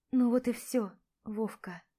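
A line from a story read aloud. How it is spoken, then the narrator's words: Muttering under breath. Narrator (Russian): бормочу себе под нос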